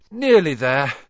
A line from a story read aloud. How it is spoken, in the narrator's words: Harry panted